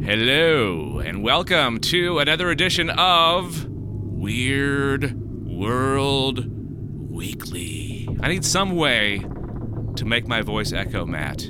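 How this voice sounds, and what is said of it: Slightly deeper morning voice. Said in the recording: “I drank beer last night, so my voice is a little bit deeper, and I woke up only like 20 minutes ago”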